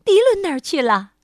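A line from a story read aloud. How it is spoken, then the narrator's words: Alarmed cry. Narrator (Chinese): 鸭妈妈惊叫起来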